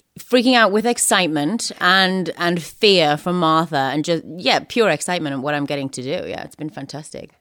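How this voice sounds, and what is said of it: Welsh-sounding accent. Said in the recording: “you're affecting an accent similar to the kind of accent that Matthew Rhys affects ... The Welshman, yes. I'm from pretty close by”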